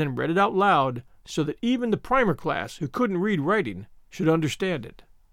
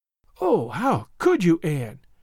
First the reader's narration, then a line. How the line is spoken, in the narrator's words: breathed Diana half reproachfully, half admiringly